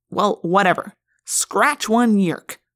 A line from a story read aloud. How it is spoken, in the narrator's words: Marco said harshly